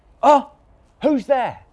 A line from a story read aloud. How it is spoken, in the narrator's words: cried the man, waking suddenly